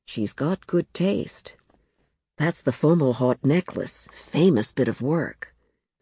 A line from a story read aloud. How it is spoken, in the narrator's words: Ketho at his shoulder murmured